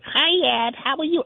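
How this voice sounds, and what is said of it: Childlike baby voice. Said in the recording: “she would use this baby voice... talked like a child”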